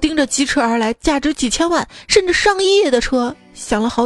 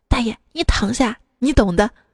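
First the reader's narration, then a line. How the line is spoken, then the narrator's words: Quiet, kindly woman. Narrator (Chinese): 好心的大妈小声的跟大爷说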